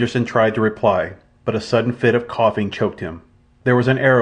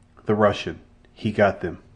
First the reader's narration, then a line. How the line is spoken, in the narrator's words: he whispered